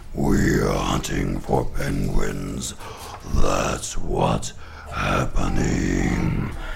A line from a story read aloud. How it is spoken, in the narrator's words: They growled